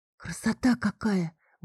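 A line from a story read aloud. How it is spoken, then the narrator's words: Breathless awe. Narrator (Russian): выдохнула я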